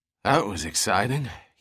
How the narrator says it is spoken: he muttered

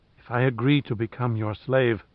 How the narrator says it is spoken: murmured through her swollen lips

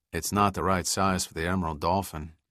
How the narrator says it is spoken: Giordino observed in a monotone

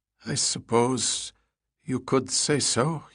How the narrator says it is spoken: he replied, as his voice wavered

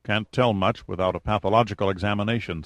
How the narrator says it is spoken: said Hopper

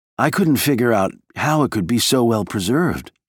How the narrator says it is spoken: she said

